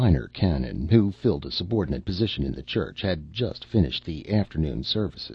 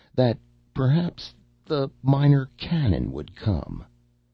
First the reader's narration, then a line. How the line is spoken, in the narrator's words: said one of the laborers, his voice shaking so that his words could hardly be understood